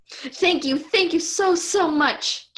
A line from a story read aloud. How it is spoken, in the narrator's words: Jill wailed